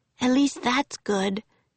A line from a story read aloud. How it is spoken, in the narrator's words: she whispered